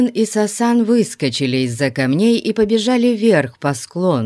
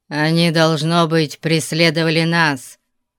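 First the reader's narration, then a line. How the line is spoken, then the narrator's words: Growling. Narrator (Russian): прорычал Зирас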